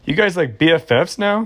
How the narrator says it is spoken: Brianna asked him with a short giggle

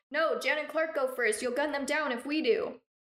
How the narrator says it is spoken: Mark yelled

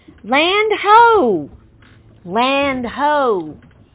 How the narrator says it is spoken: lookout shout

